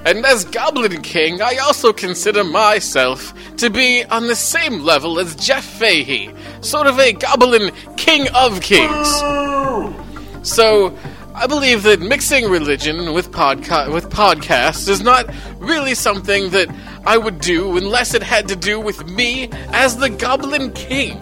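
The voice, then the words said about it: Put-on English accent, slipping. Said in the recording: “your accent's slipping ... You're not even English.”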